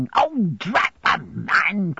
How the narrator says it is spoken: cried Peggotty

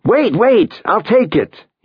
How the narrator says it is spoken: he yells

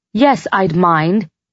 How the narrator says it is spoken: I snapped

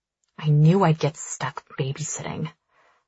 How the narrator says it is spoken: she mutters, sounding very much like our exasperated mother

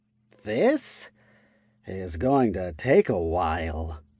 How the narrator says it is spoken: Lifra muttered

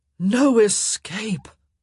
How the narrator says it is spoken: Daphne heard one of her brothers groan

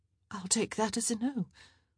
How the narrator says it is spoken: she said shakily

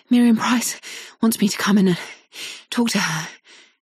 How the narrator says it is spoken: she says, panting

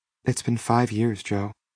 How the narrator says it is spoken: Lila said quietly

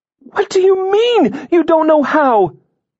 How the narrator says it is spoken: She exclaimed

